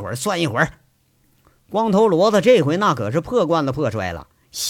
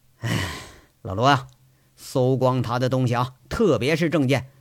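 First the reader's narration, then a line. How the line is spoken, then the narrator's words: Grim resolve. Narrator (Chinese): 杨伟苦着脸，他觉着难办了，干脆一咬牙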